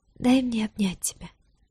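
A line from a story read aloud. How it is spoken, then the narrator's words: Very quiet, suppressed pain. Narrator (Russian): попросила вдруг она тихо-тихо, успокаивая рвущееся на части сердца, стараясь, чтобы боль не слишком сильно отражалась на лице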